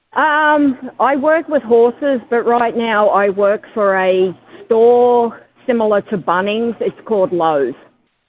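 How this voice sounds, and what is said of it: Strong Australian accent. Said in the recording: “you've still got a very strong Australian accent”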